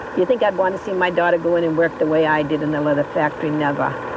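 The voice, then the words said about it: Gruff North Shore Massachusetts accent. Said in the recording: “I love those accents. It's exactly what my house sounded like when I was growing up ... these gruff and crusty people”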